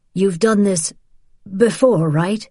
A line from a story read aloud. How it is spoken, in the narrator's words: Teddy said, his voice breaking on before